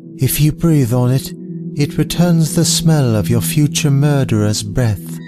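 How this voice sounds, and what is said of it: Melancholy voice, floating English accent. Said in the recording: “lacing the words with a sort of heavy melancholy and a floating English accent”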